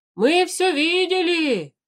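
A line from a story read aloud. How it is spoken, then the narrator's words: Group shouting. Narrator (Russian): закричали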